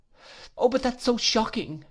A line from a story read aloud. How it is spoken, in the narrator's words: cried Dora